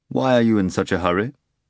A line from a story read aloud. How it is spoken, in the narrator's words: Voland asked, politely but somewhat coldly